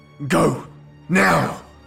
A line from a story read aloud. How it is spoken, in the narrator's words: Craig shouted